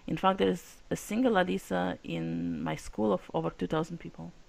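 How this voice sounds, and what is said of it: Russian accent. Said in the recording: “as you can tell by the accent, I'm from Russia.”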